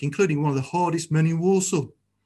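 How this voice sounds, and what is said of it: Put-on Walsall Black Country accent. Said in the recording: “That's my Walsall accent, if you didn't know. And that's a really hard accent.”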